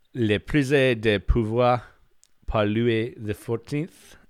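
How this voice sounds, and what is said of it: Weird put-on French accent. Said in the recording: “I'll say 14th in a weird French accent too.”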